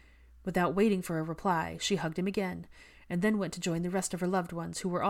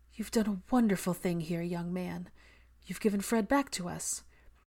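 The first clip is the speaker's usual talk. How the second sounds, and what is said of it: Quavering, emotional voice. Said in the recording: “she said in a quavering voice”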